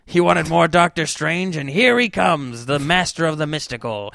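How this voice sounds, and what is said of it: Imitates another person's voice. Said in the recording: “This is my Stanley impression.”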